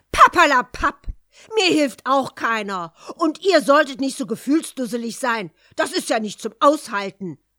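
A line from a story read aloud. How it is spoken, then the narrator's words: Venomous fairy interrupting. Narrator (German): rief giftig die böse Fee dazwischen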